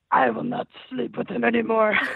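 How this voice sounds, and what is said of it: Scary Exorcist-style possessed voice. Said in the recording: “the Exorcist voice ... oh, it's scary in here now”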